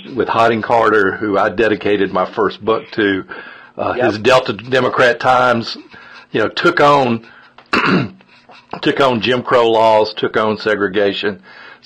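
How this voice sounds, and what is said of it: Mississippi Delta Southern accent. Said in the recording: “I grew up in Mississippi, in the Mississippi Delta, which my accent sort of gives me away”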